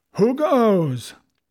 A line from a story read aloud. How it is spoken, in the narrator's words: with a mighty oath, the voice of Silver cried